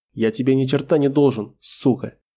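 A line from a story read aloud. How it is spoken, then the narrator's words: Voice breaking into hiss. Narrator (Russian): Голос сорвался на шипение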